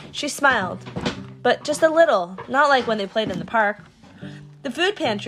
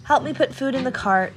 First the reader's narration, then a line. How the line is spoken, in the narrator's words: Mom sighed